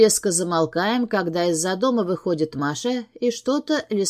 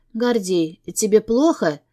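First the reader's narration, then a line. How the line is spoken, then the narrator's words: Hoarse question. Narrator (Russian): спрашивает севшим голосом Маша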